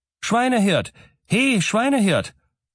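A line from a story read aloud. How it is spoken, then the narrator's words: Calling out. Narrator (German): rief er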